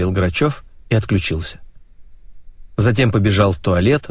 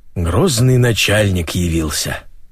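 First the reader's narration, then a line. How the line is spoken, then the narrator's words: Grumbling. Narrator (Russian): проворчал Бондарев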